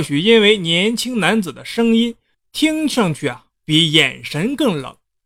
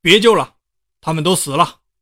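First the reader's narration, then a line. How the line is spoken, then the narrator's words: Cold sharp shout. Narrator (Chinese): 冷冷地喝道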